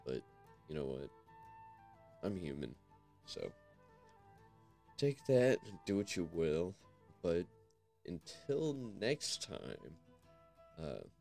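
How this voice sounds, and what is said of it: Crackly, rough-sounding voice. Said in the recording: “my voice sounds like shit, crackly”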